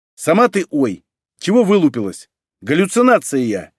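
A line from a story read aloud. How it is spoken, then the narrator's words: Rude spirit snapping. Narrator (Russian): невежливо огрызнулся дух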